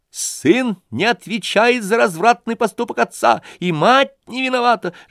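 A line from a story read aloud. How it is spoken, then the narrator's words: Fervent squeal. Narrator (Russian): с жаром провизжал Ипполит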